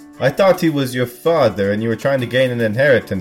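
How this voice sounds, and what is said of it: Usual voice. Nothing is said of it.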